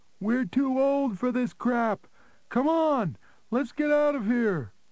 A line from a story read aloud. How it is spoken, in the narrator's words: screaming to be heard above the music and other noise, Harry said